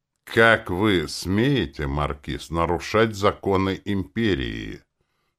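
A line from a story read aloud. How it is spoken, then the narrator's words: Icy cold, old man. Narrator (Russian): Самым холодным голосом, на какой, видимо, он был способен, этот старик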